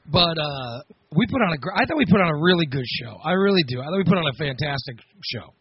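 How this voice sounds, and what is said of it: Slightly hoarse voice. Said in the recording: “my voice is a little bit hoarse, just slightly hoarse”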